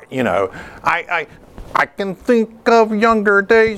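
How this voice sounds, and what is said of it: Imitates another person's voice. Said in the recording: “my Robin Gibbon impression”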